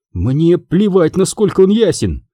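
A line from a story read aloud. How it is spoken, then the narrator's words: Snapped. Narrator (Russian): огрызнулась Эшколь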